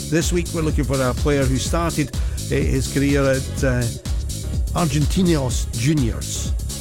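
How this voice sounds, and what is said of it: Scottish accent. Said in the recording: “from a Scot with that accent”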